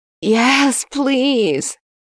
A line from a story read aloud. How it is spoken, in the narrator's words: Yuri whined